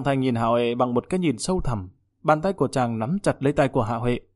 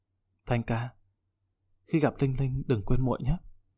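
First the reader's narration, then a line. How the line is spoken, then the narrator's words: Intimate whisper. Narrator (Vietnamese): Hạ Huệ tựa vào vai của Giang Thanh thì thầm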